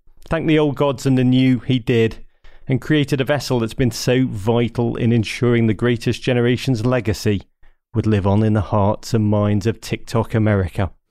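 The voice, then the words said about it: English accent. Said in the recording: “I can tell by your accent that you're English.”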